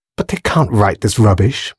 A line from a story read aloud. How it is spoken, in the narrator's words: muttered Grace